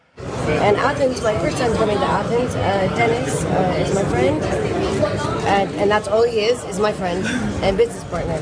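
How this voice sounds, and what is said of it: Adopted vague European accent. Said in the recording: “Lindsay's foreign accent ... adapted some sort of European accent”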